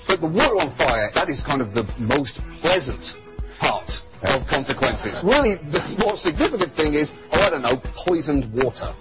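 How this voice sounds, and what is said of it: British accent, John Oliver. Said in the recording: “John Oliver, you say that like it's a bad thing. And with a British accent, so it sounds even worse.”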